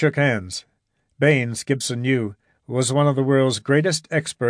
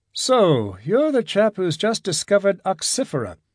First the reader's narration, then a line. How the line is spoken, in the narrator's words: said Baines dreamily